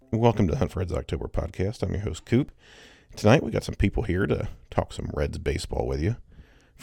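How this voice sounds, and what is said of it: Congested, strained voice. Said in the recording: “allergies are kicking my ass ... hear in my voice, not the best voice right now”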